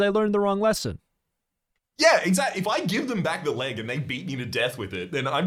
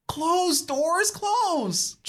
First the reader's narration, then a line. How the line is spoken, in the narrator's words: Julie pleads